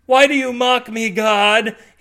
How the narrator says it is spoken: He shouts

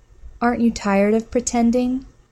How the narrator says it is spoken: the woman whispered in her ear

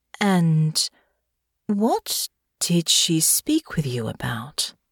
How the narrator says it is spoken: Delphinia asked, her tone careful

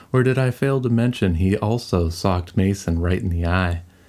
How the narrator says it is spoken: Alex burst out laughing

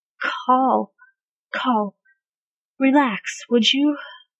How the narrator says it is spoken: He gasped out

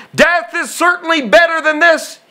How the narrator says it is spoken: he exclaimed

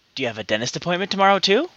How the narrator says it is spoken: whispers in her ear

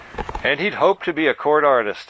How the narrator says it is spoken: said the voiceover with a chuckle

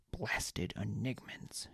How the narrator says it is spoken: she muttered

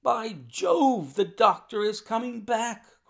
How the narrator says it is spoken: cried Holmes

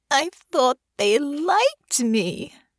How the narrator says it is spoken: she moaned

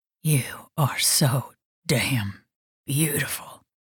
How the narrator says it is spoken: he whispered

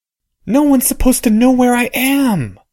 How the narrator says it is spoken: said Harry, still keeping the shriek quiet

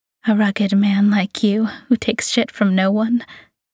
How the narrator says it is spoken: she sighs

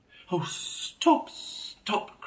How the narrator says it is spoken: cried the mole in ecstasy

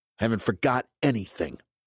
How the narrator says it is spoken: he snapped

